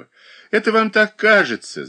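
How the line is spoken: Laughing. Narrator (Russian): засмеялась Катерина Александровна

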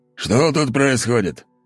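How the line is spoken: Gruff bark. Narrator (Russian): рявкнул он

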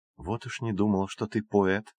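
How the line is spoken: Whisper. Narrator (Russian): шепнула Рику Джулия

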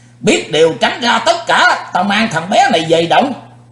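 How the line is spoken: Loud shout. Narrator (Vietnamese): Sư diện quái ma nhảy bổ tới quát lớn

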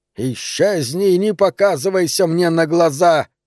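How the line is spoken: Hissing. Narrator (Russian): прошипел он

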